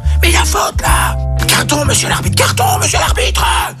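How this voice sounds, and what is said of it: Whispered shouting. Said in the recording (French): “crier sur l'arbitre, mais en chuchotant”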